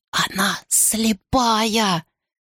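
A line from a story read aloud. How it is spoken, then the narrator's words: Hissing girl. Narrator (Russian): прошипела девушка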